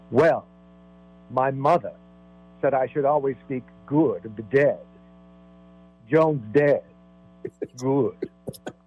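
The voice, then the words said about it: Impression of Betty. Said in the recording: “great impression, too. you nailed it.”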